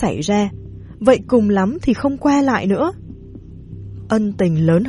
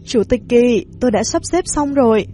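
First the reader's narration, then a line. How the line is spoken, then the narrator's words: Smiling. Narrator (Vietnamese): Tô Hàm mỉm cười nói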